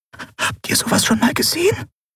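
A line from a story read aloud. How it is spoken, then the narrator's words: Breathy whisper. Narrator (German): hauchte Nelen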